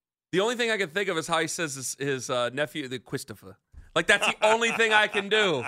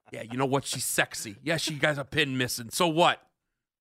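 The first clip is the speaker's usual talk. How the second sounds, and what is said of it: Poor impression of a gangster character. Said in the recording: “That's not a good Tony Soprano impression.”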